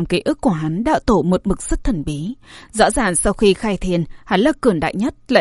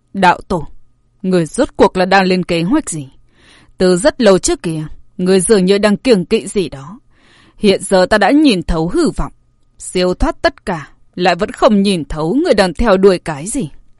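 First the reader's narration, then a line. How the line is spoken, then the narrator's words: Sighing, slow. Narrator (Vietnamese): Tỷ Thiên lão tổ thở dài một tiếng, chậm rãi nói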